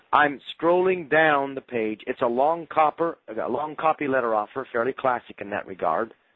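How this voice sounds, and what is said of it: Failing voice from a cold. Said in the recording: “I'm losing my voice. ... I shouldn't be having a cold, but apparently I am. So please have mercy on me. I'm trying to talk”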